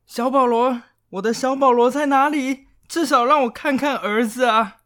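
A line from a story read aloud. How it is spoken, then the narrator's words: Old woman drowned by cheers. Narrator (Chinese): 众人的欢呼声就把老妇人的声音给淹没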